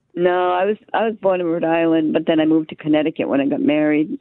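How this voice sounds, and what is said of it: Rhode Island accent, slightly Boston-like. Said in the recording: “your accent is is just Boston enough that you're not from Boston ... Rhode Island”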